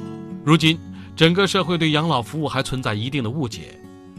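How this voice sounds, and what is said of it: Usual voice. Nothing is said of it.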